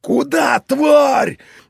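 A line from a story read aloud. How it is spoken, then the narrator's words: Yelling in a cracking voice. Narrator (Russian): Боксер сорвавшимся голосом заорав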